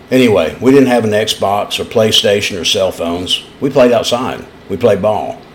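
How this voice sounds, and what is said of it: East Tennessee accent. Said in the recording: “you can hear that in my voice... you don't hear a British accent. You hear my native East Tennessee accent”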